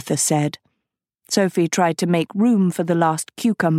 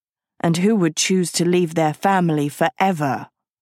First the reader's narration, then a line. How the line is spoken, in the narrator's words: Agatha snorted